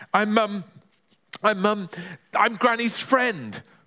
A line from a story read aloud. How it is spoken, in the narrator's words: spluttered Ben